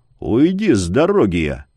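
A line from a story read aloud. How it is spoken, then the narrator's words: Muffled, through gritted teeth. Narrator (Russian): выцедил глухо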